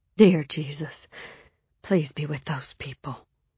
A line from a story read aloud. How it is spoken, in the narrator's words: whispered